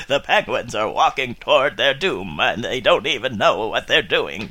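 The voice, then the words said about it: Katharine Hepburn and Morgan Freeman impression. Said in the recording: “Listen to my sexy voice. ... Don't ask why I suddenly sound like Katharine Hepburn. ... Mixed with Morgan Freeman.”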